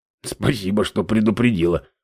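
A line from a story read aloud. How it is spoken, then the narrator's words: Grumbled. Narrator (Russian): буркнул Саир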